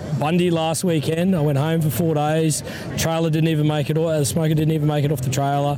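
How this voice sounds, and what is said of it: Hoarse, congested voice from a cold. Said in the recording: “I've got a little bit of a cold, a bit of a frog in the back of the throat at the moment.”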